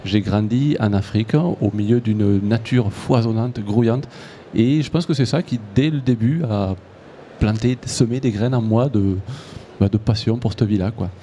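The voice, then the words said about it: Slight Toulouse southern French accent. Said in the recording (French): “ça s'entend à votre accent, dans le Tarn ... dans le sud, ouais, pas loin de Toulouse. J'ai un peu l'accent toulousain.”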